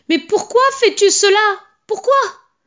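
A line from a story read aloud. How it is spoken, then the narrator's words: Anguished mother screaming. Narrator (French): hurla la pauvre mère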